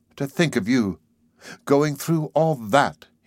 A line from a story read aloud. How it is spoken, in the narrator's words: he exclaimed